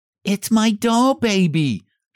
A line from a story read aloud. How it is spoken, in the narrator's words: she cried